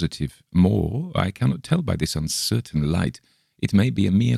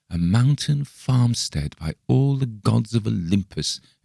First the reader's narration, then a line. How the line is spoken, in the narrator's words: exclaimed Bergheim joyously